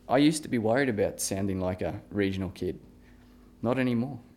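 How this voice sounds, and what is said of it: Regional Australian accent. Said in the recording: “you can hear my voice. Studies show that a regional accent”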